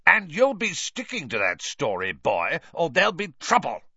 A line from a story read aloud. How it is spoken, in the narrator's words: spat Uncle Vernon